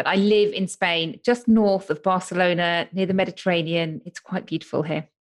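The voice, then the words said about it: British accent. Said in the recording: “you may be able to tell from my accent, but I'm from the UK”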